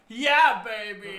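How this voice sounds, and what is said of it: Good Austin Powers impression. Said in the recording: “That was an incredibly good Austin Powers impression”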